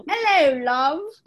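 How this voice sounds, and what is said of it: Put-on British accent. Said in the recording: “Maybe I should have a British accent.”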